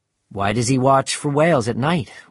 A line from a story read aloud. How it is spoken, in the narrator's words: we asked